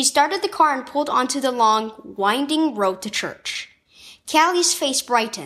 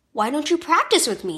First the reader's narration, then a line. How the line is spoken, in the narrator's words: said Mom